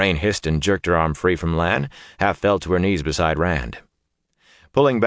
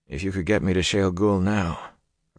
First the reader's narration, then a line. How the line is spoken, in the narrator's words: Rand said drowsily